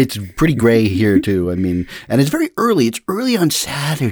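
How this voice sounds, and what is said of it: Usual voice. Nothing is said of it.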